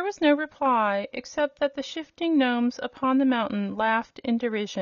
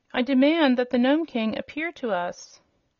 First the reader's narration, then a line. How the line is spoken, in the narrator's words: Ozma cried out in a loud voice